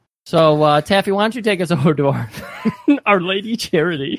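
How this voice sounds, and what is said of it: Usual voice. Nothing is said of it.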